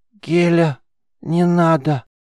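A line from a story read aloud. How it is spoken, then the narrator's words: Pleading hoarse rasp. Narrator (Russian): Умоляюще прохрипела девушка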